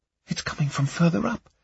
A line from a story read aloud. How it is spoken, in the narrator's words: Laura said in a hushed voice